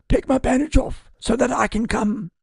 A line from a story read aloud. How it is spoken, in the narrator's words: called out